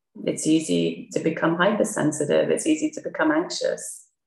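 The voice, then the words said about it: Quiet, hushed speaking voice. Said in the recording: “I'm trying to give a Dharma talk like a ninja right now, so I don't wake up my daughter who's sleeping in the next room ... be like a ninja, do it quietly”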